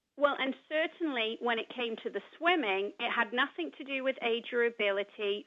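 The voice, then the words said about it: English accent. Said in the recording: “people might be able to tell by your accent ... that you are an immigrant to this country ... You're from England.”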